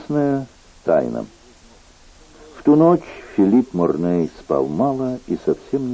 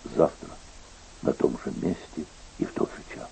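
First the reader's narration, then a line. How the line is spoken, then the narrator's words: Undertone. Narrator (Russian): Он сказал вполголоса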